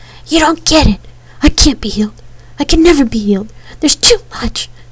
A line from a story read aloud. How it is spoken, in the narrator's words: he choked